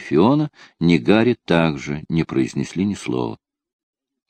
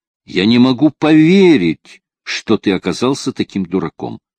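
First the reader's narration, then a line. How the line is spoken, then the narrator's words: Loud, venting anger. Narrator (Russian): Как бы выпуская собственные пары, Фиона громко сказала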